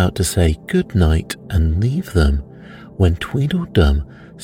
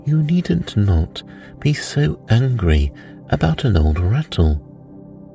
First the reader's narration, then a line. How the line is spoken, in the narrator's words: Alice said in a soothing tone